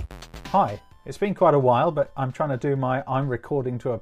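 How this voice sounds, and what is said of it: Cheerful, upbeat presenter voice. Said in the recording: “podcast voice, which, as you can see, is a little bit more exciting and cheerful and presentery than the usual glum, miserable thing”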